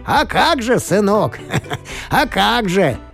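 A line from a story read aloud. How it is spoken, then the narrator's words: Laughing grandfather. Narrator (Russian): засмеялся дедушка Серебряный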